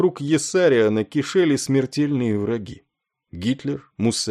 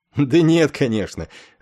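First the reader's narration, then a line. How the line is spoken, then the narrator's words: Laughing answer. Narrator (Russian): рассмеявшись, ответил Клевенджер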